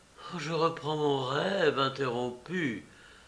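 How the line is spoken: Happy murmur. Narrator (French): murmura-t-il avec une expression heureuse

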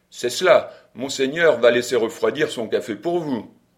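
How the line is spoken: Thunderous shout. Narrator (French): je me mis à crier d'une voix de tonnerre

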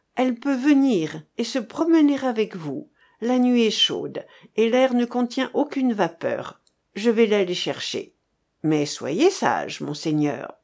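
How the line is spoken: Cheerful. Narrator (French): répondit gaiement Beauvouloir

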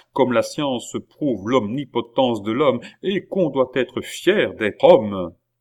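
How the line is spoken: Exclaimed. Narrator (French): s'écria Marat

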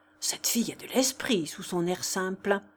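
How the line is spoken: Whispered. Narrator (French): dit tout bas Holzbauer à maître Rotter

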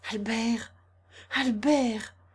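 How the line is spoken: Exclaimed with overwhelming emotion. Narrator (French): s'écria Consuelo, saisi d'une émotion extraordinaire

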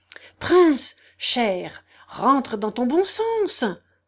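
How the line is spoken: Frightened murmur. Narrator (French): murmura d'un air épouvanté le général

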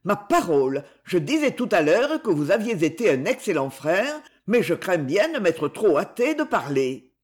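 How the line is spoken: Exclaiming. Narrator (French): s'écria-t-il

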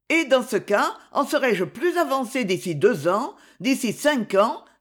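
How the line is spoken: Exclaiming. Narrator (French): s'écria Myrtho

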